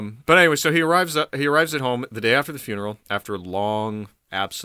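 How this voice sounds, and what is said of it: Usual voice. Nothing is said of it.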